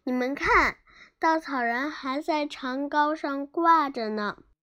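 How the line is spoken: Startled cry. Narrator (Chinese): 多罗西惊叫起来

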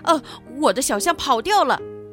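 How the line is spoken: Startled exclamation. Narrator (Chinese): 法兰索瓦吃惊地忍不住嚷起来

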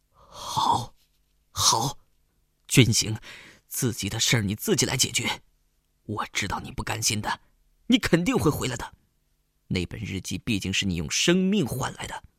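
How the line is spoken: Trembling, emotional voice. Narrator (Chinese): 仿佛看见了当年意气风发的军行，颤声说

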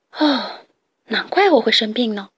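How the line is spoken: Sighing exclamation. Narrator (Chinese): 拉尔夫感叹道

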